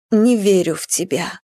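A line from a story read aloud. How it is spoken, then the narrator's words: Quiet, insistent repetition. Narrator (Russian): тихо твердила Марфа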